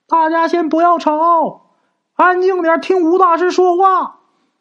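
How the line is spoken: Shouting. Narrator (Chinese): 陈氏也帮着吴大师喊啊

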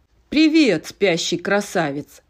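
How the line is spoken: Cheerful chuckle. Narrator (Russian): широко улыбнулся тягач и хохотнул

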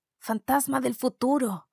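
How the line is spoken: Exclaiming. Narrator (Spanish): exclamó

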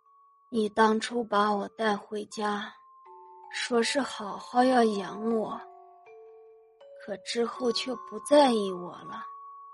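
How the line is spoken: Slow. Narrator (Chinese): 母亲缓缓的说

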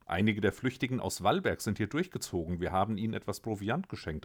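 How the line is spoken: Plain. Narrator (German): antwortete Kara

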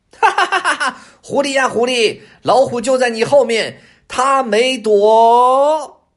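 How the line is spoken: Shouting. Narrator (Chinese): 乌鸦他就对狐狸喊上了

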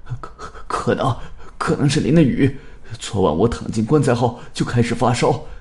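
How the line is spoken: Frightened stammering. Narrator (Chinese): 刘凡的脸上还带着一丝惊恐，他结结巴巴的说道

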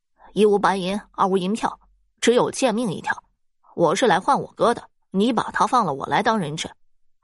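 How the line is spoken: Smiling reply. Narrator (Chinese): 施元笑着回应道

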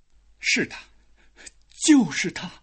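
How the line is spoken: Father stammering. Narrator (Chinese): 父亲结结巴巴的说

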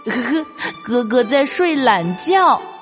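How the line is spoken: Laughing chatter of several. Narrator (Chinese): 青蛙弟弟们你一句我一句的笑着说

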